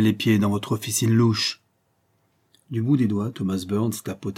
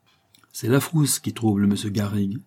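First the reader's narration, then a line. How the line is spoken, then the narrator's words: Plain. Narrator (French): dit Bob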